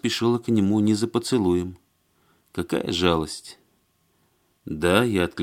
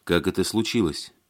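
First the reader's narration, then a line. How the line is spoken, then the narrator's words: Plain. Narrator (Russian): спросил Алексей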